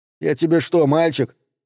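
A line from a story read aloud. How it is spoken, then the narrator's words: Snapping. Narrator (Russian): огрызнулся Дэн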